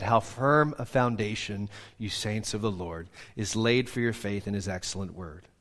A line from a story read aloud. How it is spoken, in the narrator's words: quietly said